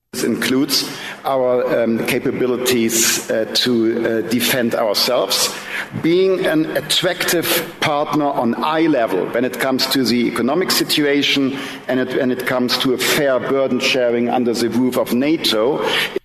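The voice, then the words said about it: German accent. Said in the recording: “You know what's nice about this accent? Not only does it remind me of German porn”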